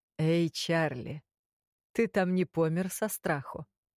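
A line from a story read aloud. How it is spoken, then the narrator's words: Mocking booming voice. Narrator (Russian): прогудела над моей головой с насмешкой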